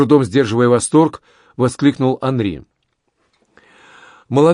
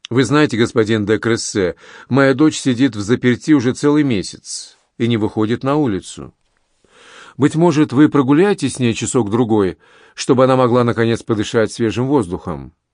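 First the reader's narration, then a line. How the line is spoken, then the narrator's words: Perfectly natural tone. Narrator (Russian): ее отец … совершенно естественным тоном сказал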